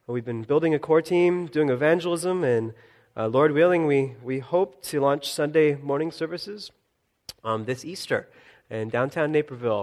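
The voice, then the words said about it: Congested voice from a cold. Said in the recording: “You might be able to hear I've got a bit of a cold, so I apologize for the coughing and sniffling.”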